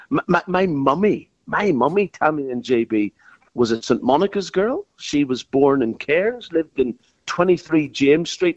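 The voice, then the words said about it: Northern Irish accent. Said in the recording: “you've got this great Irish accent. You were born in Belfast.”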